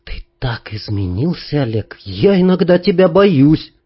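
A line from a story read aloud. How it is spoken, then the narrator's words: Sudden restrained whisper. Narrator (Russian): Танюшка сдержанно дыша вдруг прошептала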